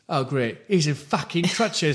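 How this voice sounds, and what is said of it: Poor put-on Cockney accent. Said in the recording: “sorry for the terrible Cockney accent. I've never been good at it.”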